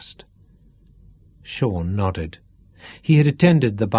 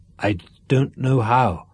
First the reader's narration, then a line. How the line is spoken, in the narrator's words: croaked Sean